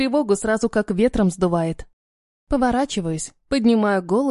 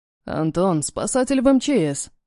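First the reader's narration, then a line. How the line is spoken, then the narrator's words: Hoarse voice close by. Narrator (Russian): Слышится над ухом хриплый голос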